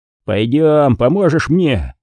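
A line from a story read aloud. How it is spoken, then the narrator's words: Growled. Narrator (Russian): прорычал Уолтон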